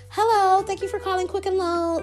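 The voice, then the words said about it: Put-on white customer service voice. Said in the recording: “put on my white customer service voice.”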